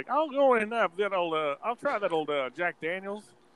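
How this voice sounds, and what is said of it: Bad put-on Texan accent. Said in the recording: “do a really bad like Texan accent”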